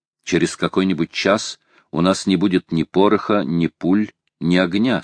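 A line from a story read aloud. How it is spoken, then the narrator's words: Plain. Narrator (Russian): сказал он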